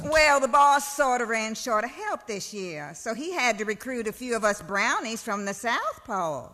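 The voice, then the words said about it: Character voice with southern accent. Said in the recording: “with a southern accent?”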